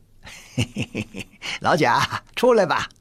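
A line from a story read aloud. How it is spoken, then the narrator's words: Cheerful, grinning. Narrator (Chinese): 李卫 笑嘻嘻地 说道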